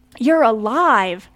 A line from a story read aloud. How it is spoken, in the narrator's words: Casey cried out in relief